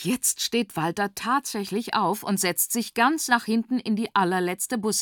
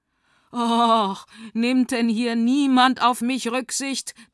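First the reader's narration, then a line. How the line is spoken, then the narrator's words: Thundering. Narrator (German): donnert Walter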